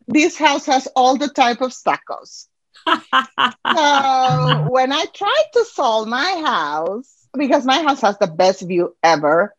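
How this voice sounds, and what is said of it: Non-local foreign accent. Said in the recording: “I am not from here, as you can feel by my accent.”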